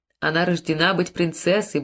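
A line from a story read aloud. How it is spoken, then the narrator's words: Muttering to herself. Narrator (Russian): бормотала себе под нос Марчелла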